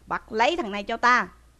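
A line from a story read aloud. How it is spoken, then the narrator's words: Feigned stern shout. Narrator (Vietnamese): Đới Tung lại giả vờ quát lên rằng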